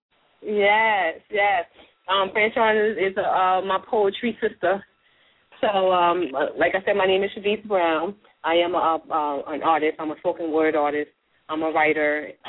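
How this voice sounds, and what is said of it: Unwell voice cutting in and out. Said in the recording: “I'm a little under the weather, so my voice is going to probably go in and out.”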